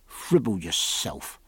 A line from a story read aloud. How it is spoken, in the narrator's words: murmured the gunroom steward the other side of the door